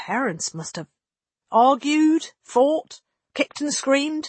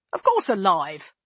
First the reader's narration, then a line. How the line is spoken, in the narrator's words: Lane snapped at him